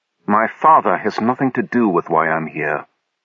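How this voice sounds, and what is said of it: Icy, cold voice. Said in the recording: “heard the ice in his voice.”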